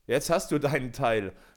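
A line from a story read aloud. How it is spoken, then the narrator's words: Laughing group. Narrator (German): sprachen sie lachend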